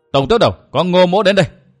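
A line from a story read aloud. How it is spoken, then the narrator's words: Loud shout after deep breath. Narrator (Vietnamese): Ngô Hằng hít vào một hơi dài, quát to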